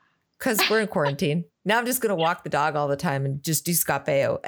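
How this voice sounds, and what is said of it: Usual voice. Nothing is said of it.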